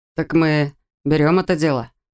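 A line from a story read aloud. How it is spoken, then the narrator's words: Gloomy question. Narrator (Russian): спросил Рэтчет, мрачно глядя на Сайкса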